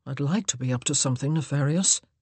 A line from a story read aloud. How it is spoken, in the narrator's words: he muttered